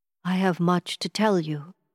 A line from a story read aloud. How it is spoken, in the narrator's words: he said